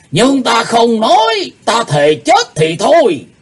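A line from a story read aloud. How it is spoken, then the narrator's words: Furious loud shout. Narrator (Vietnamese): Lão âm ma Lỗ Tử Đàn giận tím mặt quát to lên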